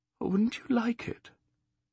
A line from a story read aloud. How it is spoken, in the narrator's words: with sudden shyness, for he was gazing at her sadly, she added